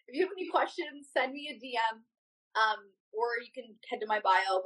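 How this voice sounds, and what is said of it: Strained, fading voice. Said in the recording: “we've been talking a lot, losing my voice.”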